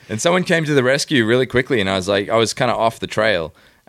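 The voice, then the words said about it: Australian accent. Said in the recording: “you beef up the Australian accent whenever there's a commercial exchange ... oh, I love your accent ... I haven't heard an Australian accent in a week”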